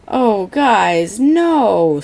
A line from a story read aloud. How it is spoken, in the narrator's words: Skylar groans